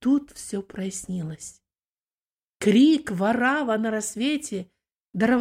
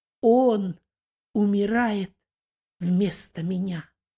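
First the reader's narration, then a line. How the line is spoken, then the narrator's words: Calm address. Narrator (Russian): второй преступник, спокойно переносящий страдания, обратился к первому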